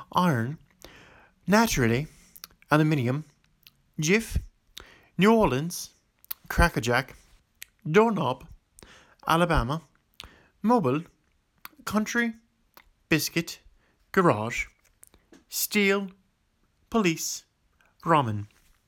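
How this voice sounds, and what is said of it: Western Pennsylvania accent. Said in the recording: “that's where my Western Pennsylvania accent comes out”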